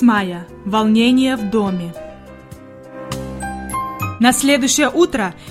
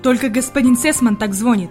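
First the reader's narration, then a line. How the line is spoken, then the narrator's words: Muttering to himself. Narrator (Russian): пробормотал про себя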